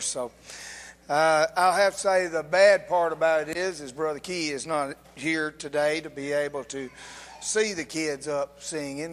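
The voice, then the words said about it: Slightly hoarse voice. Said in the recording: “I'm still a little bit hoarse.”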